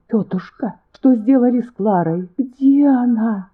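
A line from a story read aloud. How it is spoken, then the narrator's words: Moaning plea. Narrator (Russian): Стонала она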